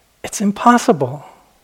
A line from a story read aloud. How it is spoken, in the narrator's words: exclaimed the Brahmin